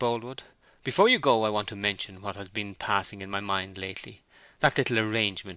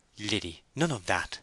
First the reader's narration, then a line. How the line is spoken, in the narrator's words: said Bathsheba, gravely